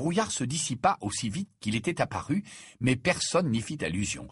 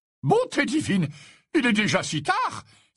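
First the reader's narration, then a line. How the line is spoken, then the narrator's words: Exclaimed. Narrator (French): s'exclama Slughorn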